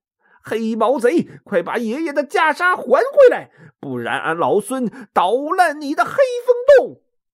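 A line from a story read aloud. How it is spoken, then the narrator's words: Shouting while smashing. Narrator (Chinese): 一边砸一边喊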